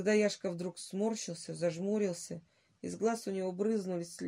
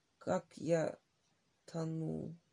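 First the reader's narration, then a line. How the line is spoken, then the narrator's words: Hoarse, strained stammer. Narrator (Russian): Володя незнакомым, хриплым голосом, с заметным усилием, заикаясь, выговорил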